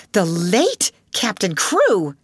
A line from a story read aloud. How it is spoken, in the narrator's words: she cried out